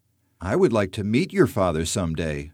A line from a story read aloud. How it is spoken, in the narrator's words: says Phil